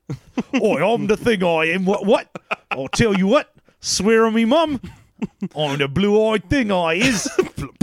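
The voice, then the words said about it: Put-on British accent. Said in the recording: “It just gets more British.”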